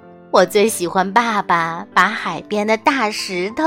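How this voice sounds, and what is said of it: Usual voice. Nothing is said of it.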